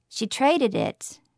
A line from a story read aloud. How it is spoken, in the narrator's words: Roddy said quietly